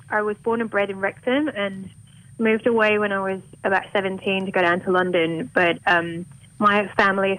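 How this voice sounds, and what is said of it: Mild Welsh accent, sounds mostly English. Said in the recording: “you don't have a very Welsh accent ... your Welsh accent, sort of. It seems a bit more English to me than Welsh.”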